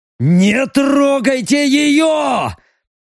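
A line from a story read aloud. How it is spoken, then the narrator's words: Strange-voiced yell. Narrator (Russian): не своим голосом заорал Леха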